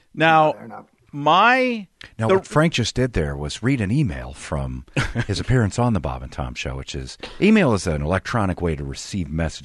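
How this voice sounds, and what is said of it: Imitates another person's voice. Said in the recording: “my new favorite impression. ... Like my Tom? ... Tom from Bob and Tom, who occasionally explains some things.”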